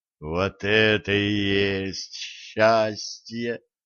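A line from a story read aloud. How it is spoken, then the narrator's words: Blissful moan. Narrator (Russian): простонал ведун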